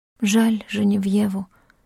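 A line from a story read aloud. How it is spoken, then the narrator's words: Tearful whisper. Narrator (Russian): прошептала она, чувствуя, как на глаза наворачиваются слезы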